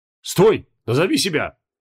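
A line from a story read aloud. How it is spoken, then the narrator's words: Loud bark. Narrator (Russian): гаркнул стражник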